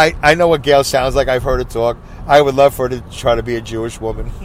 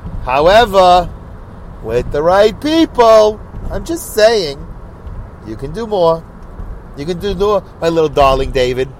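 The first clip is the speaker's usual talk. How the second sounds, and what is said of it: Put-on old Jewish lady voice. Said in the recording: “I'm going to say it like a Jewish old lady.”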